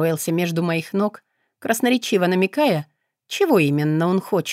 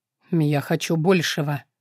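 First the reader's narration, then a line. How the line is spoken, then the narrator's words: Muffled reply. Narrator (Russian): глухо отозвался Акара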